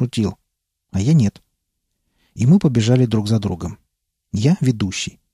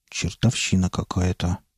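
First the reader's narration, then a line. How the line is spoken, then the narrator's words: Muttered. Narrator (Russian): пробормотал Чингис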